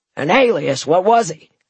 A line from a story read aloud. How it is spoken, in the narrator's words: called out Jack